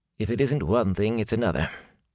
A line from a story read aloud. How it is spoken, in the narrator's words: he muttered